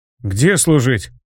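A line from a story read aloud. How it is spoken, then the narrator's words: Confused question. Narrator (Russian): растерянно спросил Вилли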